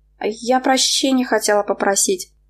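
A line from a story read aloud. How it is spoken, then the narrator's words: Mumbled. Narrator (Russian): пробормотала она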